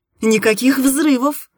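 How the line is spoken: Laughing. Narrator (Russian): рассмеялась я

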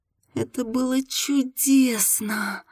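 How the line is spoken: Ecstatic moan. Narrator (Russian): Марина застонала от восторга

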